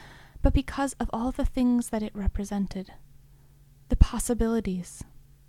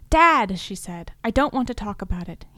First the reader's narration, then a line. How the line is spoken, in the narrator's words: he snapped